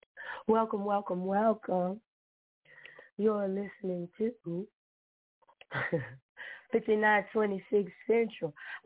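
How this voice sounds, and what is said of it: Rough, unwell-sounding voice. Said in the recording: “excuse my voice ... I was sick, girl. I was jacked up.”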